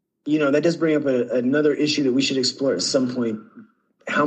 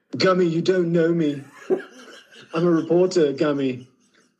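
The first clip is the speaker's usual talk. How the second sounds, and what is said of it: Poor imitation of another person's voice. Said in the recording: “Is that your Bowie impression?... That's my Bowie... That's a terrible Bowie impression... trying to do Flight of the Conchords doing Bowie. So it's an impression of an impression and a poorly done one at that.”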